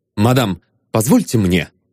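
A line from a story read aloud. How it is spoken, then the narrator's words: Stern. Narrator (Russian): строго сказал он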